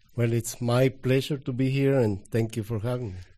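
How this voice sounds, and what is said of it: Foreign accent, non-native English. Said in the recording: “my accent ... my broken English ... a foreign accent”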